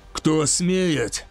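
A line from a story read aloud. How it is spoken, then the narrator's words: Hoarse grumble. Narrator (Russian): хрипло проворчал Драгор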